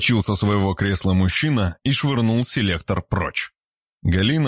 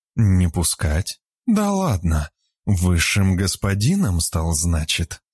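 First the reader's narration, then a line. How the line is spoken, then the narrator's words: Calm, barely restrained anger. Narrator (Russian): Ответила спокойно Вера, чувствуя, что вот-вот взорвется изнутри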